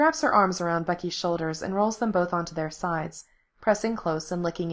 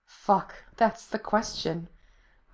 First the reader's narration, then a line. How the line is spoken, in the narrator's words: Lindsay murmurs